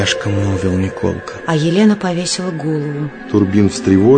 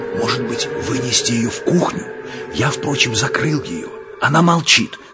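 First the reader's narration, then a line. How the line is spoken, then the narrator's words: Anxious whisper. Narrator (Russian): тревожно зашептал Елене Лариосик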